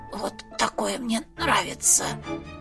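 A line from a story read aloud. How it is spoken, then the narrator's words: Weak whisper after coughing blood. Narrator (Russian): Алеша закашлялся, выплевывая сгустки крови, шепнул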